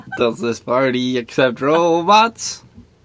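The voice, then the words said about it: Robot voice. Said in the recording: “robot voice”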